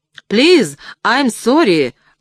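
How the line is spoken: Breathless shout. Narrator (Russian): прокричал я, задыхаясь

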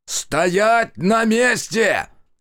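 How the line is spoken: Full-throated yell. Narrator (Russian): Разрывая рот, заорал Зотов

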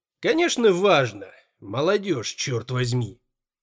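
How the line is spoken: Mumbling grumble. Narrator (Russian): Боб пробурчал что-то вроде

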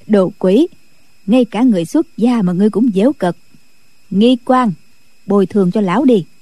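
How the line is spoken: Laughing. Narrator (Vietnamese): Định Vật bật cười nói

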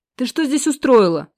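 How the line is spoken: Harsh bark. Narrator (Russian): рявкнул грубее, чем хотел бы

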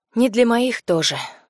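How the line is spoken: Sighing. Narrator (Russian): вздохнула Полина

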